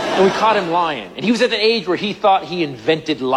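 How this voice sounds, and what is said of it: Usual voice. Nothing is said of it.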